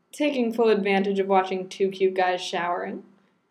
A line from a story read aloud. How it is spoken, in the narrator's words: she replied blandly